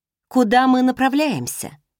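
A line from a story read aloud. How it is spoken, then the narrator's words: Plain. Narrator (Russian): спросила я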